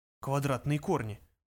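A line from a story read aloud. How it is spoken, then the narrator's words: Interested mutter. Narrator (Russian): пробормотал заинтересовавшийся Лессер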